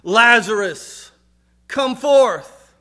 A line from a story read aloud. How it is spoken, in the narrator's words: in a loud voice, called out